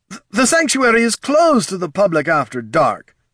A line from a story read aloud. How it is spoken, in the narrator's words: snapped Pathelin